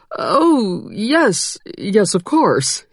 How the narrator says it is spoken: he stammered

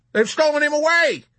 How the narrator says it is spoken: screamed someone else

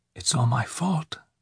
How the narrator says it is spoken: she whispered

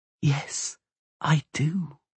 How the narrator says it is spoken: she whispered

